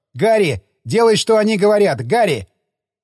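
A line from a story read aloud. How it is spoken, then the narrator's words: Shouted. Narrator (Russian): Пилот закричал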